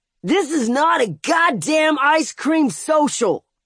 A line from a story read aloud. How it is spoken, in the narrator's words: the shooter yelled